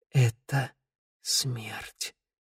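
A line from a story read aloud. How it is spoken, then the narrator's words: Fearful whisper. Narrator (Russian): прошептал белыми губами Раду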